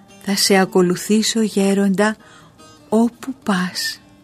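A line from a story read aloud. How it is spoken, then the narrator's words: Calm reply. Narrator (Greek): του απάντησε ήρεμα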